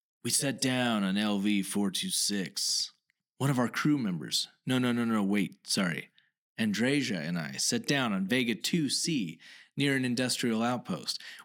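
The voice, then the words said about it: Dramatic reading voice. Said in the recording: “I want to do this in a dramatic voice.”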